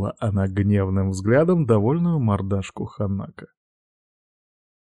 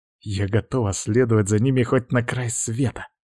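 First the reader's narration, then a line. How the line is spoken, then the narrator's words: Furious growl. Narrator (Russian): яростно прорычала Юна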